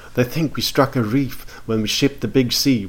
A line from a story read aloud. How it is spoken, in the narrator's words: whispered the cabin boy man